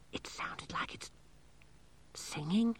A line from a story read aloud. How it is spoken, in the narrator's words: whispered Angelo